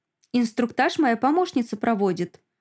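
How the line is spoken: Quick reply. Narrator (Russian): быстро отвечает Лиля

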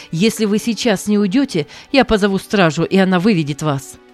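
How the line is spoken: Young man shouting again. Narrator (Russian): снова закричал молодой человек

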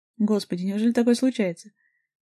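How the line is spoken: Laughing. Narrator (Russian): Григорий Иванович засмеялся

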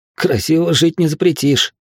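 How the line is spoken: Snorting. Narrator (Russian): хмыкнул я

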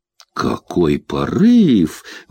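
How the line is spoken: Exclaimed. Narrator (Russian): воскликнула Кэти

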